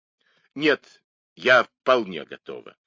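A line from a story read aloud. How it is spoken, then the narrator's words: Irritated. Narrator (Russian): раздраженно сказала миссис Мейнард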